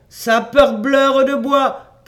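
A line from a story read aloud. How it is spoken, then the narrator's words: Shouted. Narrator (French): cria-t-il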